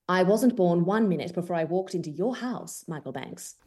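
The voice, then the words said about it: Convincing put-on British accent. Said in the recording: “So the British accent is it comes naturally... it sounds incredible”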